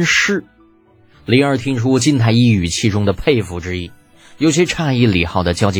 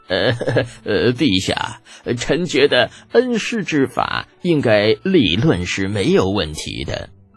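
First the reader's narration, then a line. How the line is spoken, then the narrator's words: Smiling, hesitant. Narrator (Chinese): 金太医面带微笑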